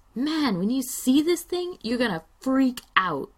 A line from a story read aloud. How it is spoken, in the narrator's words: Matt hoots and yells